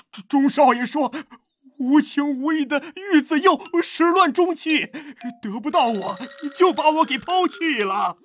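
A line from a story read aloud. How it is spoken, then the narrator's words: Reckless wailing. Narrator (Chinese): 家仆 破罐子破摔，磕头大哭道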